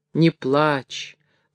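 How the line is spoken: Gentle young man. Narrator (Russian): ласково говорил бабе молодой купец

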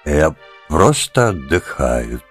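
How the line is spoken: Said in a dull voice. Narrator (Russian): тусклым голосом сказал он

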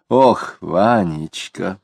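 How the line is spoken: Sighing. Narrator (Russian): вздохнула Тося

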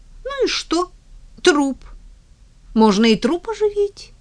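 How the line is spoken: Young eager squeak. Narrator (Russian): кто-то молодым голосом с задором пропищал

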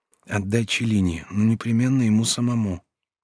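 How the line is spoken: Quiet. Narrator (Russian): прибавил тихо

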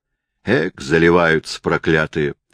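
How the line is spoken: Sergeant grumbling. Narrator (Russian): проворчал вахмистр

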